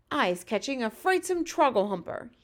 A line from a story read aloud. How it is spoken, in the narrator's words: he cried